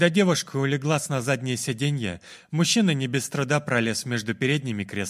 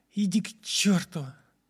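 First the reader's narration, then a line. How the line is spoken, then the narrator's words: Quiet. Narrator (Russian): тихо проговорила Лана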